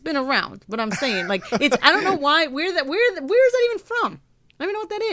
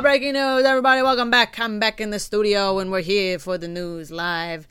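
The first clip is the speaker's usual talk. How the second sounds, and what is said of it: Put-on weird accent. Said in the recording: “I don't know the accent... I have, like, started developing these weird accents”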